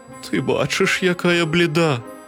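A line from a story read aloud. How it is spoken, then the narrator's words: Weak voice. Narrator (Ukrainian): кволим голосом відказала хмара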